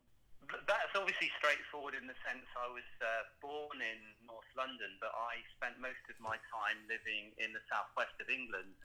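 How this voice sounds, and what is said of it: British English accent. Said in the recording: “you're from the UK with that accent”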